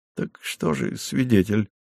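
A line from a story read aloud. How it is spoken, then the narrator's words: Dejected voice. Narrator (Russian): упавшим голосом сказал комендант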